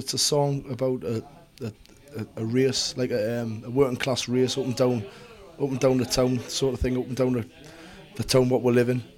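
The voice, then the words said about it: Geordie English accent. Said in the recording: “It's a Geordie where we come from. Our dialect is called Geordie. It's like the area of England where we come from.”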